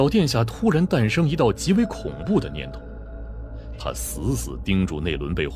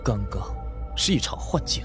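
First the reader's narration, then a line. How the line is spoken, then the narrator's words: Muttering to oneself. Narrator (Chinese): 喃喃自语道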